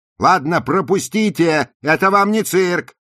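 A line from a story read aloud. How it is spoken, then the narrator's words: Shouting at pressing crowd. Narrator (Russian): крикнула Розали, когда толпа обступила их и начала напирать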